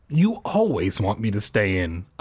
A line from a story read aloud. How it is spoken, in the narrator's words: I grumbled